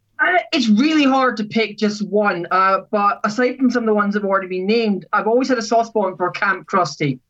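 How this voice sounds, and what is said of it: Scottish accent. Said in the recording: “Scotland, right? ... As you can tell, possibly by your accent, a little bit. ... My accent does slightly give it away”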